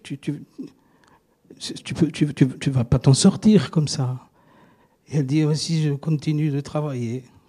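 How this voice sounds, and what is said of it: Put-on Marseille French accent. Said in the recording (French): “accent marseillais”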